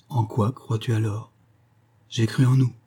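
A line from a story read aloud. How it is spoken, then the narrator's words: Sad. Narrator (French): dit-il tristement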